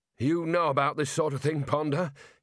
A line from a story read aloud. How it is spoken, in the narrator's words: he growled